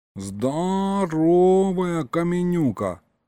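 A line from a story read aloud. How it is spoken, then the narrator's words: Admiring drawl. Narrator (Russian): Восхищенно протянул Гришка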